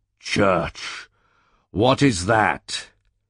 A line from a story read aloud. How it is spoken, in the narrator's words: Then did he interrupt me sullenly, and asked